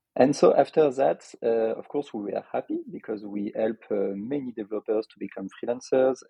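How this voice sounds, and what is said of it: French accent. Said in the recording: “I am from Lyon in France, as you could expect from my accent.”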